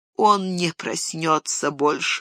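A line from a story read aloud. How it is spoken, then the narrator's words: Groaning. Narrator (Russian): застонал Денетор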